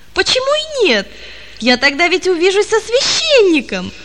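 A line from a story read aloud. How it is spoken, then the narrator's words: Joyful exclamation. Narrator (Russian): воскликнул он радостно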